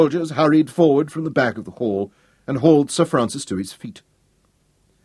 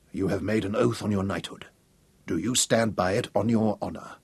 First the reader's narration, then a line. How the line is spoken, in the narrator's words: Sir Francis whispered to his son